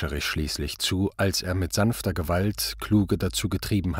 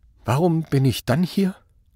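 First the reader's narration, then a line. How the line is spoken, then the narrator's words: Trembling question. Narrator (German): fragte er mit zitternder Stimme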